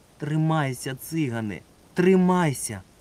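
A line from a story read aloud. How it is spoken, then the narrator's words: Pleading voice. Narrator (Ukrainian): Благальним голосом раз у раз просив Марусик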